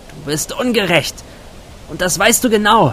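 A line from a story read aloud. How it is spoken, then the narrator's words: Calling into the night. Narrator (German): rief sie in den Nachthimmel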